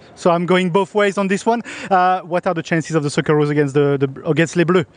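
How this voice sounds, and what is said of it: French accent. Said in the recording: “I've got a French accent”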